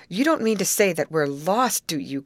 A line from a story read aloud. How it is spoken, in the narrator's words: cried Molly